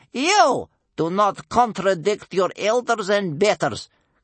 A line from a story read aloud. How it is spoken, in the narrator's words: cried his grandmother sternly